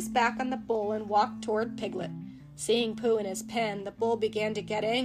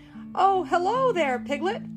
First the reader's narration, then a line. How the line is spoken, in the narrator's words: Pooh shouted back